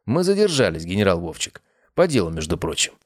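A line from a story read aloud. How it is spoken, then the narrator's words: Wry grunt. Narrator (Russian): Я хмыкнул и ответил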